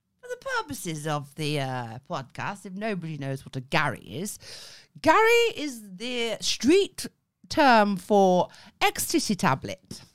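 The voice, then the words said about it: Put-on posh English accent. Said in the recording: “I feel like I've started in a posh accent because it makes it sound better.”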